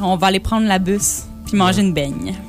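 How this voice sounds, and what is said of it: Put-on Trois-Rivières Quebec accent. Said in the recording (French): “L'accent de Trois-Rivières”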